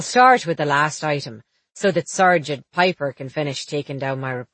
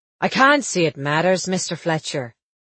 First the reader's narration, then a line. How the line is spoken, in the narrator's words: said Underwood